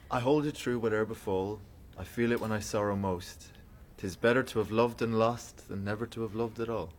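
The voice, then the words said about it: Speaks with an accent. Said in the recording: “Sounds good in your accent.”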